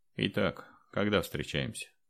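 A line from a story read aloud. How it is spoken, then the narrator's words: Dry inquiry. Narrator (Russian): сухо осведомился Андрей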